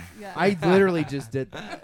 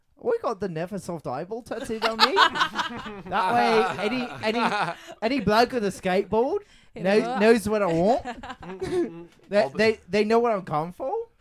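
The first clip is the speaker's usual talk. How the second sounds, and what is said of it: Put-on Australian accent. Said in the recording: “These Australian accents are pretty good. ... Can you do an Australian accent?”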